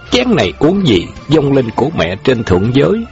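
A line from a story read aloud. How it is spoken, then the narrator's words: Laughing loudly, toasting. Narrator (Vietnamese): Khâu Trọng cười lớn nâng chén lên nói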